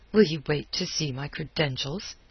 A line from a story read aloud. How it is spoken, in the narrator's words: he snapped